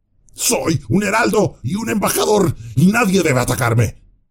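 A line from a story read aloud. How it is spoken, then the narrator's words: Shout. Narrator (Spanish): gritó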